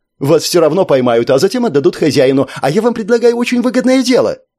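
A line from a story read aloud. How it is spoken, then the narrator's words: Rapid chatter. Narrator (Russian): Гуманоид затараторил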